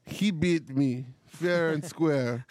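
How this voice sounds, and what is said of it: John Malkovich's bad Russian accent. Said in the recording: “John Malkovich ... It's such a bad Russian accent, but it's so good.”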